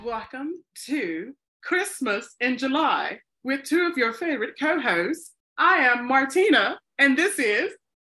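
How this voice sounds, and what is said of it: Put-on British accent. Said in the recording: “I don't know why I start off in a British accent. I do love a British accent. I don't know if British would consider that how they sound”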